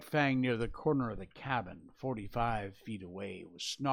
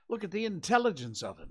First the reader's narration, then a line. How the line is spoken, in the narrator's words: Scott went on hastily